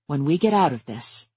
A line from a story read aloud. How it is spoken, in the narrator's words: I said very quietly